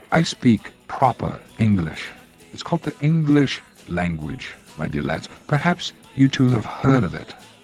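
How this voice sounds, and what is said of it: Fake English accent. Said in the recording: “Well, it sounds like an English ... His accent is fake. ... He just started talking like this like 4 months ago.”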